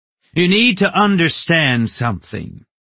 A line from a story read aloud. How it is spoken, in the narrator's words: Rin said loudly